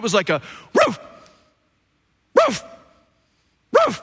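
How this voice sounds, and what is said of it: Imitated dog barking. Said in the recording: “that's my best impression of that”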